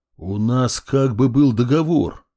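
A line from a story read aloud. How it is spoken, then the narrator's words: Displeased growl. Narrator (Russian): недовольно рыкнул я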